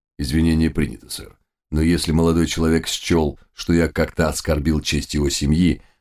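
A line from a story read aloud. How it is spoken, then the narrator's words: Calm reply. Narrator (Russian): спокойно ответил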